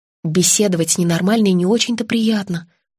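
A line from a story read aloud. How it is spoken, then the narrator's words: Sighing. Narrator (Russian): вздохнула Монахова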